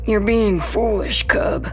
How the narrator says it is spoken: he wheezes

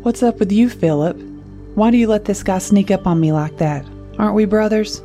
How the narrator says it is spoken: Louis laughed

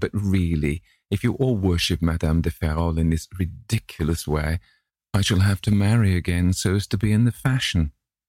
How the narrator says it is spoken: said his hostess, laughing

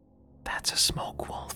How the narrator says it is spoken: S whispered

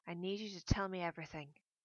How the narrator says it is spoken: I said

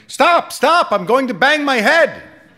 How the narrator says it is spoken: The man at the top of the ladder would become scared and start shouting

